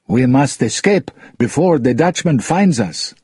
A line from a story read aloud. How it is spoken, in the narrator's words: some of them called urgently